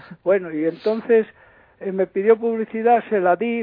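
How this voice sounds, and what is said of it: Usual voice. Nothing is said of it.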